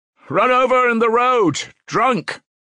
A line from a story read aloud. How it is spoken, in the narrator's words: someone shouted in the passage